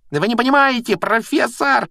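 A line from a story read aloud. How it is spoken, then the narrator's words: Shrieking. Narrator (Russian): визжал Малфой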